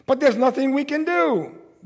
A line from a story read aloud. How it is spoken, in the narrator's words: they screamed